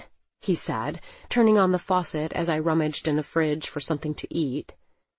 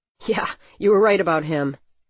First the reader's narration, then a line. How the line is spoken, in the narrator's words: Neil chuckled